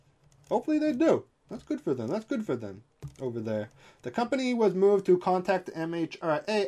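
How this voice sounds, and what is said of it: Usual voice. Nothing is said of it.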